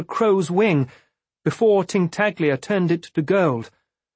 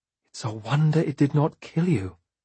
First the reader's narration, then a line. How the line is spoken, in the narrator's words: she said in a hushed voice